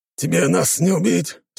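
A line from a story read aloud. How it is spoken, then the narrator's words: Growl through clenched teeth. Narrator (Russian): стиснув зубы, рыкнул один из них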